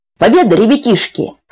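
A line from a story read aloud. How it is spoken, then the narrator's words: Shouting. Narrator (Russian): крикнул дядя Яша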